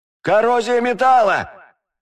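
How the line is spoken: Yelling tall young man. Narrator (Russian): заорал потлатый высокий парень

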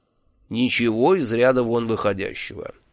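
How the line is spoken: Calm reply. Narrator (Russian): также спокойно ответил

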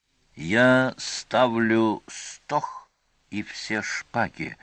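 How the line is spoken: Sepulchral voice amid silence. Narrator (Russian): гробовым голосом при полном молчании остальных сообщил Сварог

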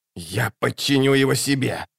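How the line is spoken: Hissed. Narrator (Russian): прошипел Локон

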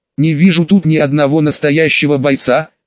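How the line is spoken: Snide. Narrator (Russian): ехидно сказал Иван

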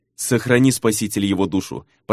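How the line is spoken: Mumbled. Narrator (Russian): пробормотал Наяра

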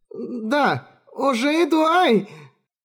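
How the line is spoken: Pained squeal, bitten tongue. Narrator (Russian): Лакиш взвизгнула от боли, прикусив язык от волнения

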